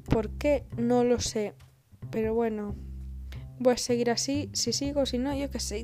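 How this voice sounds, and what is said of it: Andalusian Spanish accent. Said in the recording (Spanish): “¿Por qué cojones me está saliendo hoy a mí el acento andaluz? ... El acento andaluz me sale a veces porque soy medio andaluza.”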